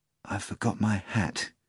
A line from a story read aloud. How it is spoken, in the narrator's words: the bartender whispered